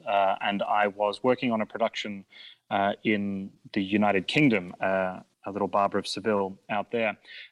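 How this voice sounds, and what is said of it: Non-native accent. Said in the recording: “as my accent betrays, I'm not a native to these shores”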